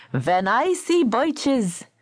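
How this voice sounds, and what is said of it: Put-on Yiddish accent. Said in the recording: “recite birches in a Yiddish accent.”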